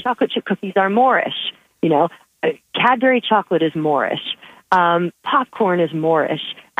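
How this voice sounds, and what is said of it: American accent. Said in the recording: “with an American accent, it just doesn't sound quite the same.”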